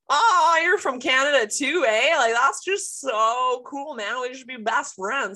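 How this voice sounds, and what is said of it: Loud exaggerated Canadian accent. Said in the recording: “the Ontarian that would come in so hot and loud”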